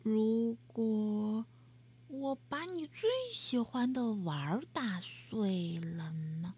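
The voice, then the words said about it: Quiet whispered child's voice. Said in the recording (Chinese): “她小声说”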